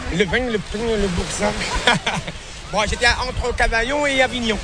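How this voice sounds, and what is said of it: Southern French accent. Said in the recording (French): “Il a la tchatche et l'accent du sud, vestige de ses années passées en France.”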